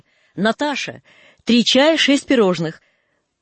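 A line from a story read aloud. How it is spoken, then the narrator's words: Distant shout. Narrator (Russian): Из ресторана крикнули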